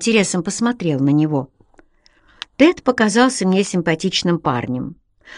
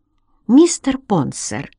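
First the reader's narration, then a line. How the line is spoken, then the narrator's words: Quiet speech. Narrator (Russian): тихо сказал он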